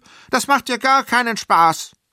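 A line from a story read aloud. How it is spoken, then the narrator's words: Calling out. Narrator (German): rief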